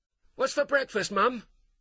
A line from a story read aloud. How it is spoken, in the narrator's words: Tyler called out